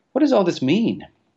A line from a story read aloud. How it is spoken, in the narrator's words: cried the Admiral